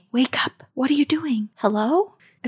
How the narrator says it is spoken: I'll hear a woman's voice whisper to me

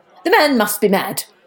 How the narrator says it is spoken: cried Martha

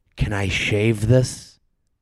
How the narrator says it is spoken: whispers

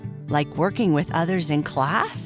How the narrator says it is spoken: Pancake asked

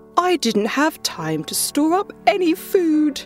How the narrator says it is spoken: whined the grasshopper

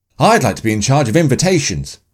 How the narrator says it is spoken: Emma quickly announced

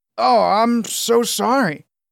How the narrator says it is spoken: Julian stammered

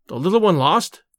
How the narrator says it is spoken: he exclaimed

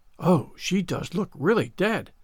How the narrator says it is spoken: whispered Ruby Gillis, nervously

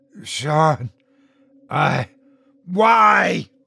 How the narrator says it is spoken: My voice echoed through the room

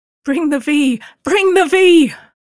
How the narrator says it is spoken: cried the witch, calling for the King of the Gnomes

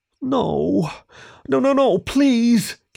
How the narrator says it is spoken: Kieran pleaded with a thin, cracking voice

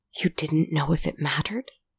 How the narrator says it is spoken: He whispered

